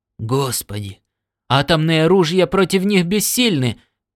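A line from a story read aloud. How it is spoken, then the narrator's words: Hoarse terrified shout. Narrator (Russian): крикнул Леннинг хриплым от ужаса голосом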